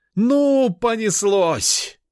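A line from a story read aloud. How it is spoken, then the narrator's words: She-bear shouting. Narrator (Russian): выкрикнула медведица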